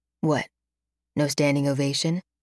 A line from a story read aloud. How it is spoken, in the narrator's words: he murmurs